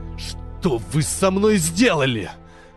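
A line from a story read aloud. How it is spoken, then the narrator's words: Hiss. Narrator (Russian): зашипел Штейн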